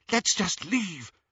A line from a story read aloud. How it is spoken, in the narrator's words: Hermione whispered